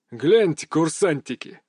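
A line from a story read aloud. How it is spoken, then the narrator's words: Amused snort. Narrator (Russian): хмыкнул капитан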